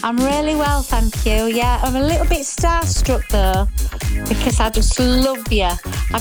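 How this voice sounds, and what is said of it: Northern English accent. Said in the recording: “that lovely northern accent”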